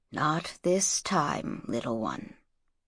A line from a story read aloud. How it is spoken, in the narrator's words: he said softly